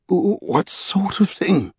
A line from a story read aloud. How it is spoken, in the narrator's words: He said a little hoarsely